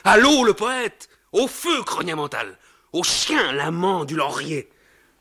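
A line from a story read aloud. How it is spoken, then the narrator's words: Shouting amid laughter. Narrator (French): On cria parmi les rires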